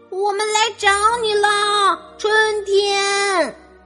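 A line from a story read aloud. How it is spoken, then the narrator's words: Shouting, stamping feet. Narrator (Chinese): 马塔咚咚咚的跺着脚喊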